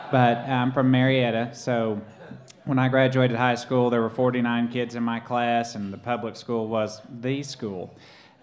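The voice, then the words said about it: Rural Oklahoma accent. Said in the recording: “I'm from rural Oklahoma. Probably couldn't tell that by my accent.”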